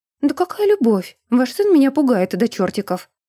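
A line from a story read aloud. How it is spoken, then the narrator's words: Exclaiming. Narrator (Russian): воскликнула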